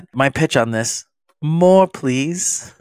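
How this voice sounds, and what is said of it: Put-on English accent. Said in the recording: “Nice little English accent”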